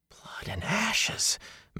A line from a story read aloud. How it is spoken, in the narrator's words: Matt said faintly